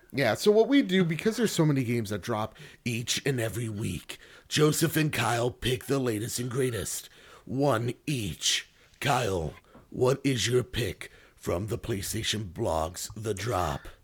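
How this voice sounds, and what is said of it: Dramatic movie trailer announcer voice. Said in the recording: “That was very good movie trailer voice guy.”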